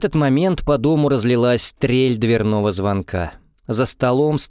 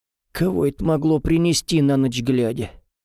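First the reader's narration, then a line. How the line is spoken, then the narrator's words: Grumbled. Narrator (Russian): проворчала Федора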